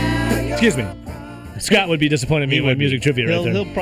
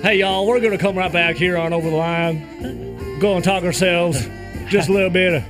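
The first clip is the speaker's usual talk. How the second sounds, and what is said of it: Fake Southern accent. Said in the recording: “fake Southern accent”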